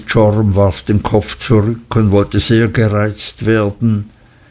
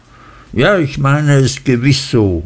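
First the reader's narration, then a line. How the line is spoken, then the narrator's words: Calling out. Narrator (German): rief Mrs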